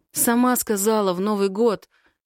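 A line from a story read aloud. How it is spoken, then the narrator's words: Hoarse, straining. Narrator (Russian): Хрипит от натуги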